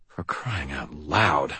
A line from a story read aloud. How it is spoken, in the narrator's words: I muttered